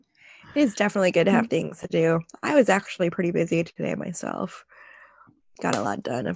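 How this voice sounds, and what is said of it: Lower, sniffly congested voice. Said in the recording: “getting rid of some of the sniffles that you're probably going to hear ... my voice is a little bit lower tonight.”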